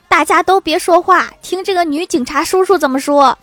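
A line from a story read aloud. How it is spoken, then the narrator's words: Middle-aged man shouting. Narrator (Chinese): 一个四十几岁大叔大声喊道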